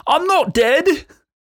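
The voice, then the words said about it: Bad put-on British accent. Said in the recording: “Forgive the horrible British accent”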